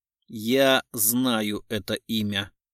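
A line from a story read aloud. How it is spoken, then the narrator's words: Plain. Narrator (Russian): сказал Гуров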